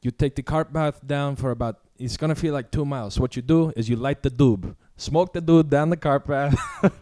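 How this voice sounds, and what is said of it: Imitates another person's accent. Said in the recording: “he's kind of got like a I don't really know his accent. I'll try and do the impersonation”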